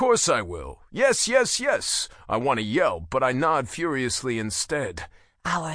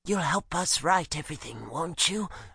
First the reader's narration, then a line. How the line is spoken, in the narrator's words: Astra purrs